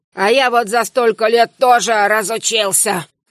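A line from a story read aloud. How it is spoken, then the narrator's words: Grunt around a pipe. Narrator (Russian): хмыкнул огненный, не вынимая трубку изо рта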